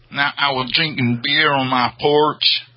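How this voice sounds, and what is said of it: Put-on Southern US accent. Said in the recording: “That's a very southern one.”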